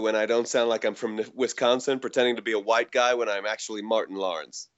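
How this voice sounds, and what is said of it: Put-on American accent. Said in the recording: “you would have believed my American accent. But now it'll just be cringingly bad ... Yeah, that was pretty good”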